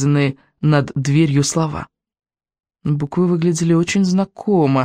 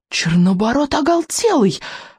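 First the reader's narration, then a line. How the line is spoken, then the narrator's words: Exclaimed. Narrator (Russian): воскликнул Рыбьенок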